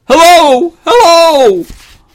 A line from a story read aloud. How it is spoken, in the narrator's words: the children's voices shouting above the storm